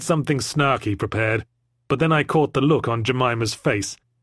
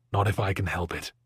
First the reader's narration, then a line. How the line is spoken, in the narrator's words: I whispered sincerely